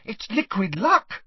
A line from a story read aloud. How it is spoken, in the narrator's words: said Hermione excitedly